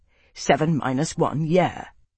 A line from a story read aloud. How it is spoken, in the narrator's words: Foss said testily